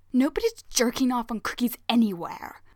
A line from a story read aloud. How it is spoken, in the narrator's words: Ryu hisses